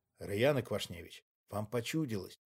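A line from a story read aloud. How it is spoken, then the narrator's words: Soothing mutter, investigator. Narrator (Russian): Успокаивающе улыбнувшись, пробормотал следователь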